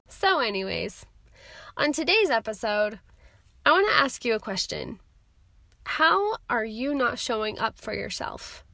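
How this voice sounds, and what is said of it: Creaky, croaky voice from cold. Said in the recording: “I sound like a creaky frog during this episode, it's because I got a dang cold”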